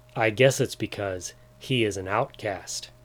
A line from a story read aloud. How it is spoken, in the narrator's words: replied Jimmy